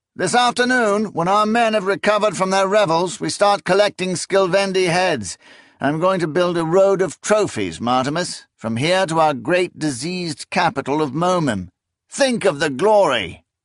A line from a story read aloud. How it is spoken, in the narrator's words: Confis called out